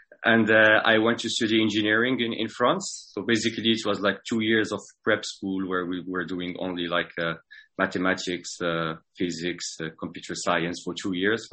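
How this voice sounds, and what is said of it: French-accented English. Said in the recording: “this is why I have this French accent, a bit like you, Max”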